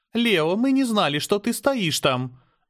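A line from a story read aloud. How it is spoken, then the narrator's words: Hesitant, uncertain. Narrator (Russian): неуверенно начала Аня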